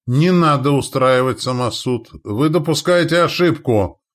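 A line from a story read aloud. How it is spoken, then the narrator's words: Shouting. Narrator (Russian): прокричал Анис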